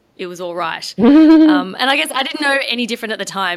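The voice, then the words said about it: Australian accent. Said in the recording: “because I'm Australian, at least I'd be semi-entertaining just from ... the accent.”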